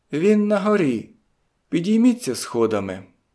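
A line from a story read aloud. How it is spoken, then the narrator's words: Plain. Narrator (Ukrainian): сказала вона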